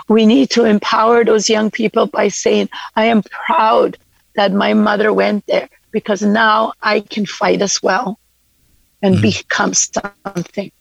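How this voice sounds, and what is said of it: Emotional, voice breaking. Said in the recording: “I'm getting emotional”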